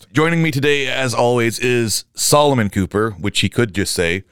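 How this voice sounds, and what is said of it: Slightly scratchy voice. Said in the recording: “my voice is a little bit scratchy. I do have a bit of a very mild cold”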